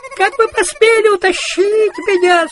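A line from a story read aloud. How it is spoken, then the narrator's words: Shrieking. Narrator (Russian): сразу завизжал Менестрель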